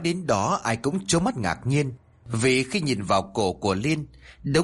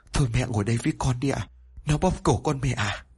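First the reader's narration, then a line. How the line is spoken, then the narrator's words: Trembling voice. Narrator (Vietnamese): Liên nói với giọng run rẩy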